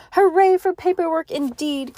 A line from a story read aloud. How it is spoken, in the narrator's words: Klaus cried